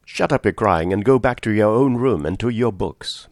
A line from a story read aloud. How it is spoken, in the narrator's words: Mary Hardy said sharply